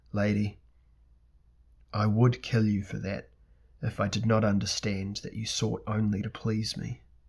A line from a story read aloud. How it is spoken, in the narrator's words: Elric said grimly and quietly to Myshella